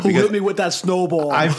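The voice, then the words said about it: Put-on New York accent. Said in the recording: “You're like Tony at the pizza parlor... Just a simple New York accent.”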